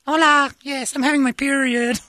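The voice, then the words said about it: Put-on Mexican accent. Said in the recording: “This accent usually has different news.”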